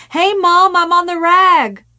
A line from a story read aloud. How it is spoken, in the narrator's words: to yell down excitedly